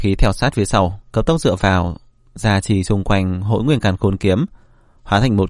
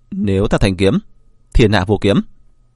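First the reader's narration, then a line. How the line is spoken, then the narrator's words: Shout. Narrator (Vietnamese): Vân Phi Dương quát lên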